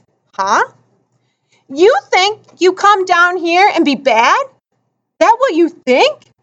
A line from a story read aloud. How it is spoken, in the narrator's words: Mars Bar's was practically shouting now